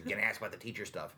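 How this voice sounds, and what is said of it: Imitates another person's voice. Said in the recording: “that impression”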